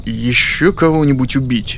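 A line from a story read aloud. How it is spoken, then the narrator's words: Forced calm. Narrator (Russian): спросил я, стараясь говорить спокойно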